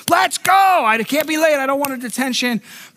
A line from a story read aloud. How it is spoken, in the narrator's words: yelling